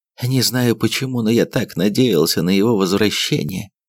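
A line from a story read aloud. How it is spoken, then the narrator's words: Plain. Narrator (Russian): сказал он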